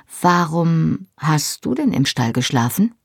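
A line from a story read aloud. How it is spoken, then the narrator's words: Plain question. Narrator (German): fragte ich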